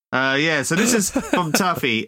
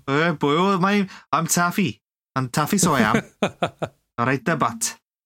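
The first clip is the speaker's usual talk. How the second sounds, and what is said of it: Put-on Welsh accent. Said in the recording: “you've got to do this in a Welsh accent. You've got to read this story in Welsh accent.”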